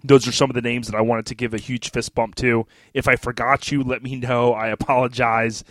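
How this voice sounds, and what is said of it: Slightly congested voice from cold. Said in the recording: “I'm kind of getting over this cold. You can kind of hear it in my voice a little bit.”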